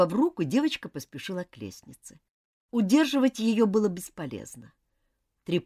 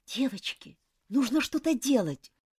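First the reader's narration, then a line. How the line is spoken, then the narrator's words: Whisper. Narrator (Russian): прошептала Джоан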